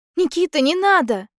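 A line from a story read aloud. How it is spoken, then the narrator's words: Shouting. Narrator (Russian): кричала Аня где-то рядом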